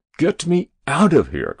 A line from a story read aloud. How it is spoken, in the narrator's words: cried the president